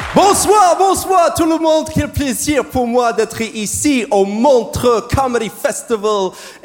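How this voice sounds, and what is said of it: American accent speaking French. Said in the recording (French): “je parle vraiment comme ça, ok? C'est mon vrai accent, c'est parce que je suis américain.”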